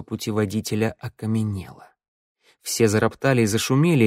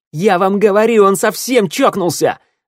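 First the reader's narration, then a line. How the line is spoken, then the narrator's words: Yelling. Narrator (Russian): орал ворона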